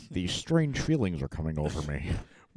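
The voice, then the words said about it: Imitates another person's voice. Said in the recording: “doing an impression of ... Sean Connery”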